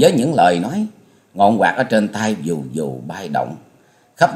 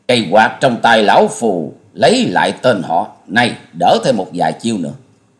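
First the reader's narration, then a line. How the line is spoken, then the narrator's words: Bursting into laughter. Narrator (Vietnamese): Gã áo vàng bịt mặt cười phá lên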